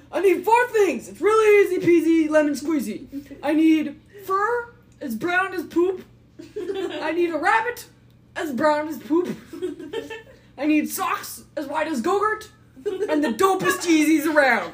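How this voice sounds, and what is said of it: Silly put-on dumb voice. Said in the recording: “I gotta do it in this dumb voice.”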